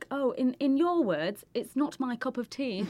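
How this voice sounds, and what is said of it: Very bad British accent. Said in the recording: “In the worst British accent ever ... That's terrible. ... The worst British.”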